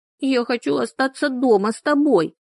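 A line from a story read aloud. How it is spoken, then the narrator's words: Whimpering. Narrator (Russian): захныкала Эллин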